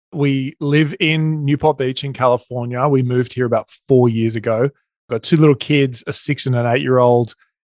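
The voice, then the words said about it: Australian accent. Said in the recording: “you can probably hear my accent. I'm Australian.”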